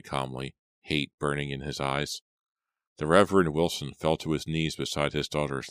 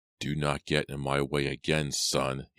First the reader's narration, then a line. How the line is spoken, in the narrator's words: he growled, his voice hard and sharp as a steel blade